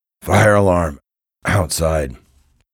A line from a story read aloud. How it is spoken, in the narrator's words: grumbled a voice behind me